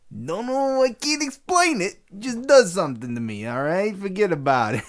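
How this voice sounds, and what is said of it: Imitates another person's voice, gangster-style. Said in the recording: “you're nailing your Jeff Goldblum impersonation... I just devolved into Gangster Goldblum there.”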